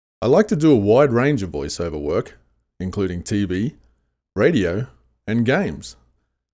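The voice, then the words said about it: Australian accent. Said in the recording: “with an Australian accent, in case you couldn't tell”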